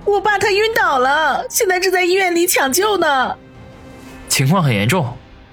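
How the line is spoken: Tearful, choked voice. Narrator (Chinese): 苏辛迪眼泪汪汪，哽咽地说道

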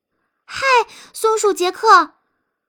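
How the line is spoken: Hurried shout while running. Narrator (Chinese): 彼得一边喊道，一边急匆匆地跑着

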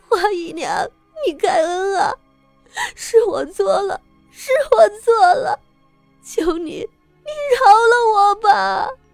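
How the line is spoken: Wailing, begging. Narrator (Chinese): 他都在嚎啕大哭，甚至向花招求饶

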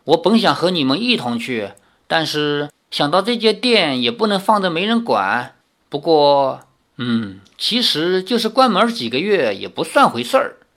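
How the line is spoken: Old woman sighing. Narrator (Chinese): 李大娘叹道

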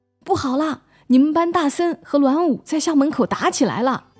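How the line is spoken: Panicked breathless shout. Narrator (Chinese): 有个女生慌慌张张地跑进来，气喘吁吁地冲着班里大喊

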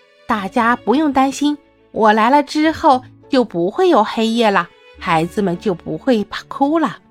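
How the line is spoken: Smiling. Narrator (Chinese): 大象笑了笑说

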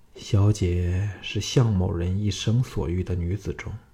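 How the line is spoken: Soft sorrowful whisper. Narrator (Chinese): 向少龙感到一阵阵的神伤魂断，叹了一口气后，凑到他小耳旁柔声说

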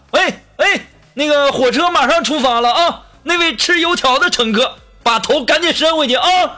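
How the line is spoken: Sudden shout. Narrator (Chinese): 地面的列车工作人员突然大喊

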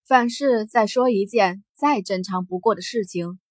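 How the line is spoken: Cool, veiled menace. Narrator (Chinese): 艾琳眸中一闪而逝的杀意，却是走上前一步，淡淡的说着

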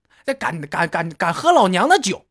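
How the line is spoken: Angry stuttering shout. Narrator (Chinese): 挥舞着魔法杖对老大喊道

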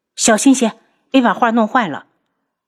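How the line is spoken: Angry shout. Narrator (Chinese): 楚清瑶怒喝

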